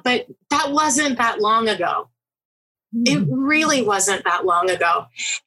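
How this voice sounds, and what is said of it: Choked-up, emotional voice. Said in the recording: “I'm getting choked up,”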